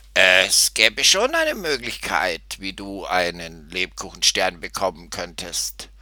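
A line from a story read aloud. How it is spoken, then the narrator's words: Croaking distant voice. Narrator (German): erklang eine krächzende Stimme aus der Stallbox am Ende des Ganges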